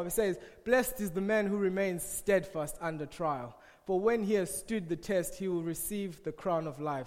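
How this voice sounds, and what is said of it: African accent. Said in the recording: “Excuse my African accent”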